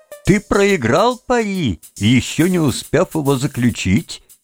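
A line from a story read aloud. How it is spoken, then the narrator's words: Laughing, little man. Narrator (Russian): Кругленький человечек рассмеялся и сказал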